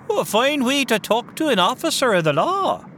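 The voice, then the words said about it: Stereotypical Irish cop accent. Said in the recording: “Is that Irish accent for real? ... the Irish cop stereotype”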